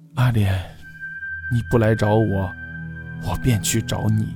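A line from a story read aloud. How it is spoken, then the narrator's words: Murmuring to oneself. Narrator (Chinese): 喃喃自语道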